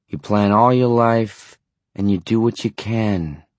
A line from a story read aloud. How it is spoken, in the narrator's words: the spectral voice groaned